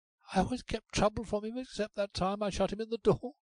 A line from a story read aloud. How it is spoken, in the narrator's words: gasped Molly